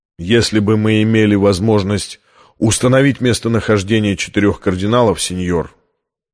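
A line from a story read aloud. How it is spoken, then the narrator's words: Firm voice. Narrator (Russian): твердым голосом произнес Оливетти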